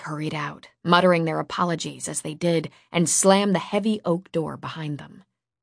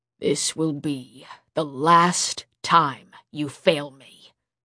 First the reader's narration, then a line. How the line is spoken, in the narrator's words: the king growled